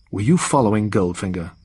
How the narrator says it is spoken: he asked

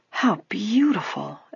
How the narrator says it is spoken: Allison exclaimed softly

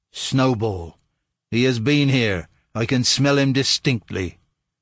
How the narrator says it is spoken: exclaim in a terrible voice

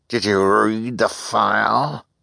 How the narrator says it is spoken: she demanded in a terrible voice

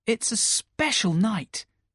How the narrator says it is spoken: Peter replied brightly

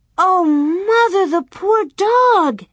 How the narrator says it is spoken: Alice cried

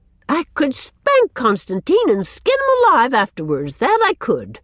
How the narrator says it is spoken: she exclaimed bitterly

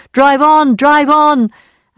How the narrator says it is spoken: the man's voice cried out

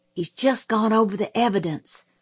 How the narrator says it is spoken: Jim whispered

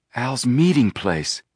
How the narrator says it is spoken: Joe breathed

